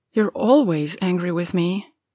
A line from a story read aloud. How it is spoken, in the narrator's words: he murmurs, like he's trying to figure it out himself